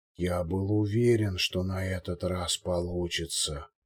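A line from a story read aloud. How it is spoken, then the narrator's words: Barely audible. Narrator (Russian): едва слышно повторил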